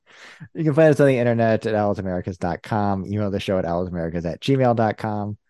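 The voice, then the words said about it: American accent. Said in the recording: “with an American accent”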